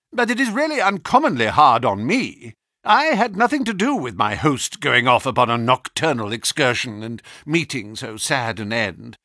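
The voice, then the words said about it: Querulous, complaining voice. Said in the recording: “in a querulous voice”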